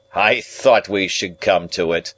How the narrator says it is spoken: Jaggers said triumphantly

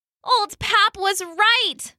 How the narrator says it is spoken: Lulu groaned to her friends

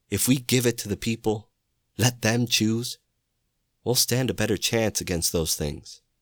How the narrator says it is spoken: the leader exclaimed

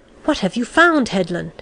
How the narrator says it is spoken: he asked excitedly

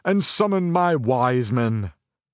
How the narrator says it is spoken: thundered

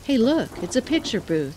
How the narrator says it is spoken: exclaimed, as he smiled

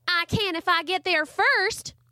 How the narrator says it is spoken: Charlie Ray yelled

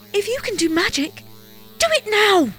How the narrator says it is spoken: cried the princess

